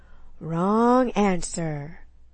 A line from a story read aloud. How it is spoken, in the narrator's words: he drawled